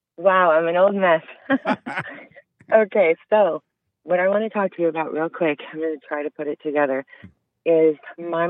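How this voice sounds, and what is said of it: Sick-sounding, rough voice. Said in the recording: “sorry I sound terrible. I'm getting over a cold right now.”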